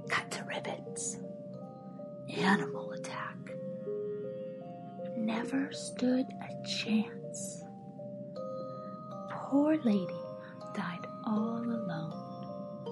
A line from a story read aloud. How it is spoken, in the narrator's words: I heard the lunch ladies whisper to each other